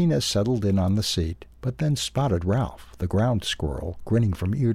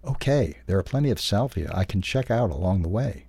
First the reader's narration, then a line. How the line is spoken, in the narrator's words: Maria replied